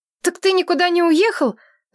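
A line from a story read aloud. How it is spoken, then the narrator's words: Shouting. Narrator (Russian): закричала я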